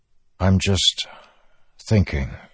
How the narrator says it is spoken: he said, trying to keep his voice even

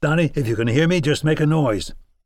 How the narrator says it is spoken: I called out to him calmly

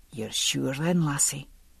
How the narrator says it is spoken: he said at last, very gently

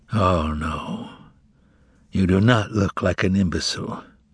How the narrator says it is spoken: replied the procurator softly, breaking out in a fearsome smile

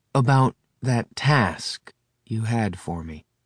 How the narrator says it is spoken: said Adam slowly

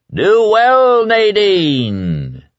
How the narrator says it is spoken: the voice boomed

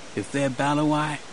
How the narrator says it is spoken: he muttered

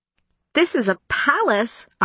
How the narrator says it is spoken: I exclaimed

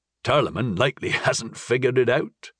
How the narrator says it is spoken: Astral chuckled

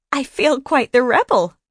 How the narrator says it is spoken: Grace giggled

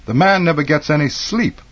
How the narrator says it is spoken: Sister Betty sometimes would exclaim in spontaneous indignation

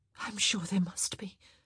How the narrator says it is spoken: she replied, her voice mere breath

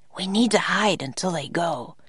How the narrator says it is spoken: whispered Jack

